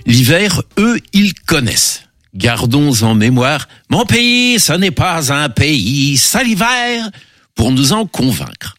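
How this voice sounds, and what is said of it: Deliberately bad put-on accent. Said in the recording (French): “cet accent déplorable”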